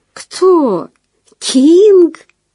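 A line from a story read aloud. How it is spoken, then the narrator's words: Laughing. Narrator (Russian): Маринка не смогла удержаться, рассмеявшись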